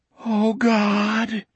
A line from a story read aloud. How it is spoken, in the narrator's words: Jack moaned